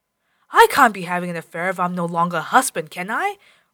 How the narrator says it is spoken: roared Jakob

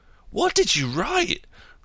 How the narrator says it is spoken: cried Frothing Harris

